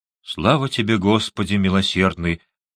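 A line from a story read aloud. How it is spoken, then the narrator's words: Muttered. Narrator (Russian): пробормотала миссис Мэгвер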